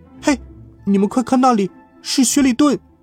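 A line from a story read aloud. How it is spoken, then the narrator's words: Startled exclamation. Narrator (Chinese): 就连小鹏鹏也…惊叫道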